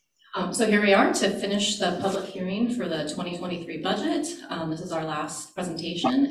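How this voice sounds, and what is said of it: Slightly nasal voice. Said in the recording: “if I sound a little nasally. ... I'm coming off of a cold”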